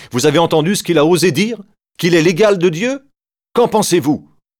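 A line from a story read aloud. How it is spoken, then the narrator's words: Exclaimed. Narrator (French): Caïphe s'écrie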